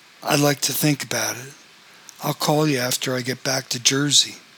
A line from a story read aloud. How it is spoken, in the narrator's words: Lonnie said